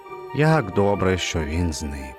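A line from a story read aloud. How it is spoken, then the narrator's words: Relieved sigh. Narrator (Ukrainian): Полегшено зітхнув він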